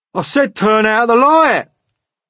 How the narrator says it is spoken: shouted the centipede angrily

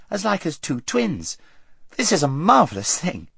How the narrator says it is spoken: exclaimed Queen Lucy

